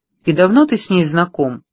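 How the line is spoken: Forced calm, inner turmoil. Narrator (Russian): Мэг старалась говорить спокойно, хотя на самом деле в голове у нее все шло кувырком

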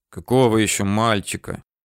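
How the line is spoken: Quiet anger. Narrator (Russian): тихо злился Тыжных

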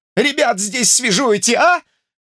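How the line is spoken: Wailing tearful shout. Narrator (Russian): кричал тот с каким-то плачущим воем

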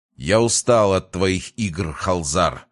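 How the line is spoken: Sudden furious growl. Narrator (Russian): с внезапной яростью прорычал Крейон Прайст

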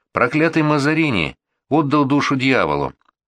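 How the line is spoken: Exclaiming. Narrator (Russian): воскликнула Анриетта

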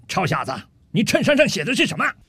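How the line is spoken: Slow drawl. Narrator (Chinese): 陆军大兵慢悠悠地说道

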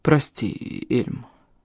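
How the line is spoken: Mumbled. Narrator (Russian): промямлил он

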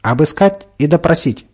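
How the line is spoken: Barked order. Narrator (Russian): рявкнул господин

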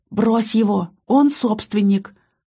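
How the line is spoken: Loud whisper. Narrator (Russian): посоветовал мне Киран громким шепотом

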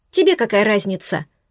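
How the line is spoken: Sharp snapping retort. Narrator (Russian): Огрызнулась резче, чем планировала

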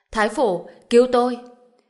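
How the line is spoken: Terrified scream. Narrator (Vietnamese): Ninh Chính Hào sợ hãi hét lên

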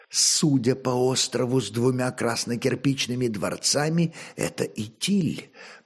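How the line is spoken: Barely mouthed whisper. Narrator (Russian): прошептал одними устами Велиздар

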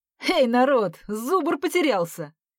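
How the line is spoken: Cheerful shout. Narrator (Russian): весело крикнул Лёва

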